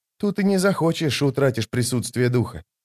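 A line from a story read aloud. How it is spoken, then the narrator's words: Quiet mutter. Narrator (Russian): тихо пробормотал молоток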